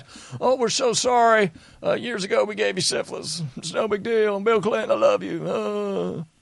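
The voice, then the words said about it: Imitates another person's voice, not well. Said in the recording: “I just can't do a good Hills impression”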